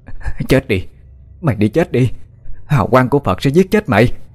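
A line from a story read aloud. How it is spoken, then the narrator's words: Loud frenzied screaming. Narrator (Vietnamese): mụ ta liền giơ cao mặt Phật lên ngang mặt cùng với chuỗi tràng hạt, trồi thét lớn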